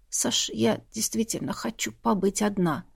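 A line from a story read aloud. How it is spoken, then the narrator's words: Quiet request. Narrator (Russian): тихо попросила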